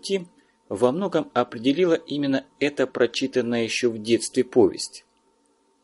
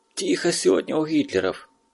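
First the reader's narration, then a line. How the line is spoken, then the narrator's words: Whisper. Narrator (Russian): шепнул Глоба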